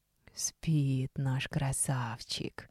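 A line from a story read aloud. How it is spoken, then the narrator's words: Husky drawn-out half-whisper. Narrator (Russian): хрипловатым полушепотом протянула Соня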